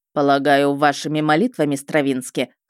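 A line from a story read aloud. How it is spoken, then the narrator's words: Wry snort. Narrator (Russian): хмыкнул он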